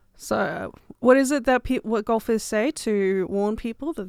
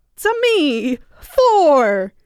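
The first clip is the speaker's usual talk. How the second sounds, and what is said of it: Mario cartoon character voice impression. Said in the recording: “do it in a Mario voice ... let's do some terrible Mario impressions”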